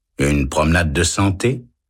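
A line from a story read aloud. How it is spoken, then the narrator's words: Calm. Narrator (French): répond l'homme calmement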